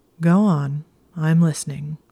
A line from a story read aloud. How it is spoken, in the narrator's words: said in a resigned tone